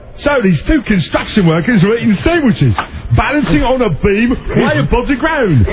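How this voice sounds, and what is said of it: Put-on Cockney accent. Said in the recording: “with a Cockney accent”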